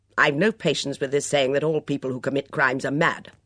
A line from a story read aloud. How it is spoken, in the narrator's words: barked Miss Hinchcliffe